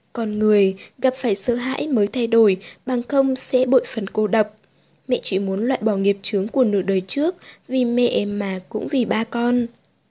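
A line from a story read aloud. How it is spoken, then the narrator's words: Said softly. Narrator (Vietnamese): Tô Ánh Vân nói khẽ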